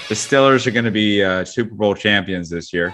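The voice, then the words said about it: Put-on Pittsburgh accent. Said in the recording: “that was my attempt at a Pittsburgh accent ... sometimes it comes out. Sometimes it's just a bit foolish.”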